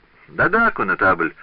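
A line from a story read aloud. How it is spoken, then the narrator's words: Cheerful interruption. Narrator (Russian): весело прервал его король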